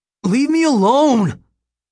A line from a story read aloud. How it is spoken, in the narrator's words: yelling